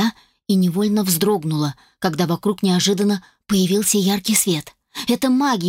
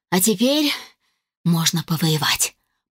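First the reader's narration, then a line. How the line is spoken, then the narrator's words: Whisper after deep breath. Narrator (Russian): прошептала я, глубоко вздохнув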